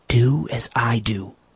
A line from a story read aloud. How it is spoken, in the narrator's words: whispered his guide